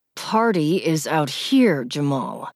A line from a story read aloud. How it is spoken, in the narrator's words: he said through clenched teeth